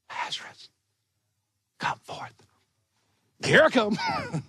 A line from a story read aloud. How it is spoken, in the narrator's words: He could have whispered